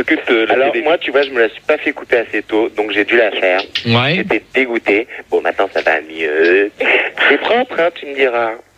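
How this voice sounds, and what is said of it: Exaggerated effeminate put-on voice. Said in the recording (French): “tu prends ta voix normale, tu prends pas la voix d'un travelot”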